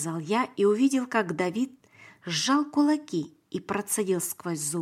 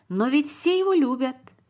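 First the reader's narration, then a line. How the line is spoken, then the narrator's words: Male exclamation. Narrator (Russian): воскликнул Давид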